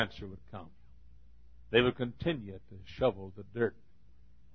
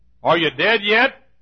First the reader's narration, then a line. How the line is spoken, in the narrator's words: shout